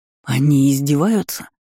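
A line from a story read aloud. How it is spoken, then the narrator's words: Angry. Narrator (Russian): зло произнес Карх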